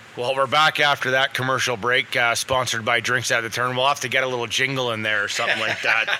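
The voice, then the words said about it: Slightly hoarse, strained voice. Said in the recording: “I'm losing my voice here, a little hoarse”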